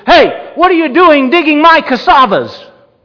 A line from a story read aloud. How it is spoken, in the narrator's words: he shouted